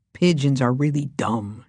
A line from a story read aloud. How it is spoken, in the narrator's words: James muttered